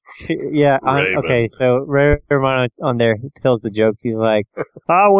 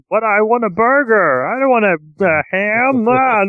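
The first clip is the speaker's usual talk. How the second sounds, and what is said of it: Imitates another person's voice. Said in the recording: “That's the best Ray Romano impression I've ever heard.”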